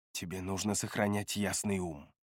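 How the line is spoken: Hissed. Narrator (Russian): прошипела

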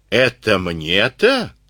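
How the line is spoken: Wheezing. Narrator (Russian): снова просипел

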